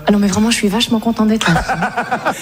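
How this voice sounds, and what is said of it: Put-on Parisian French accent. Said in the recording (French): “je parle un peu à la parisienne comme ça ... C'est pas mal, tu le fais bien, hein.”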